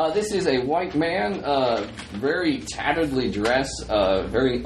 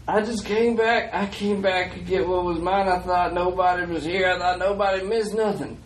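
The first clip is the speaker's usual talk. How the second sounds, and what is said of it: Character voice with Southern Georgian accent. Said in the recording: “Southern accent? ... Yeah, Southern accent, local Georgian accent.”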